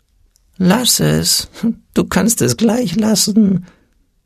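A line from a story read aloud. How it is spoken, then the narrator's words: Small whimpering voice. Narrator (German): wimmerte das Stimmchen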